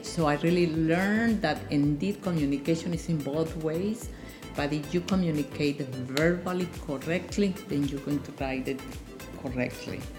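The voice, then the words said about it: Noticeable foreign accent in English. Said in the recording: “I still have my accent. People recognize me right away because of my accent,”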